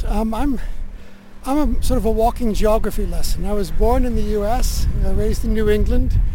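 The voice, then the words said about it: Non-southern-English accent. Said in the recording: “that's not a south coast of England accent I'm picking up here”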